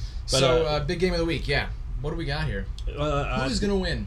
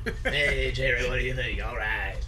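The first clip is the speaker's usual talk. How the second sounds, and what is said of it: Rough gravelly imitated voice. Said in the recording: “he's got the gravelly, the rough gravelly voice ... my horrible impression”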